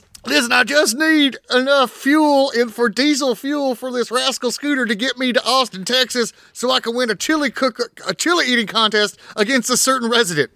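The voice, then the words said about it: Angry Texas accent, like Alex Jones. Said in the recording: “a Texas angry accent now without turning into Alex Jones”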